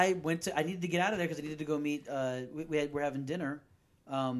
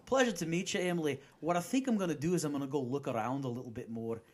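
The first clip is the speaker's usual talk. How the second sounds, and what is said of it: Put-on Scottish accent. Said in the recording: “I just came out in with a Scottish accent ... your accent is so sexy”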